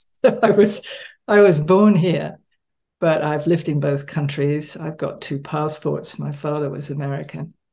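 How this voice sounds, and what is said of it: Transatlantic accent with a twang. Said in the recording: “do I pick up a transatlantic accent? ... You do. Yes, I have a twang.”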